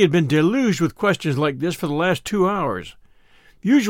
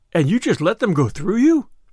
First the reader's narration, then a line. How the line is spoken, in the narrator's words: cried the tenderfoot